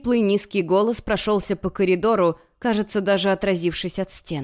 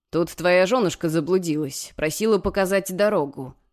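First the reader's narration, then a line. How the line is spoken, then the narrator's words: Snorting. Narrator (Russian): хмыкнул он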